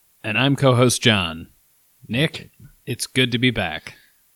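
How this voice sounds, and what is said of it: Half-hearted broadcaster voice. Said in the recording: “trying my broadcaster voice ... You could put a little more into it, I think. ... A little manlier, I think, would work.”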